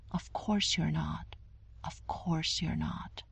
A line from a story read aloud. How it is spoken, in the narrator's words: Prue sighed and said softly